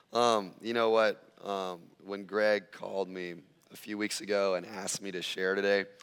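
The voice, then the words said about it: Slightly raspy voice. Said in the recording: “It's going to be a little raspy at first ... a breakthrough this morning in my voice”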